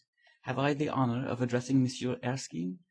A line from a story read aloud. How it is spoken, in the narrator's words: An old gentleman said in a slight French accent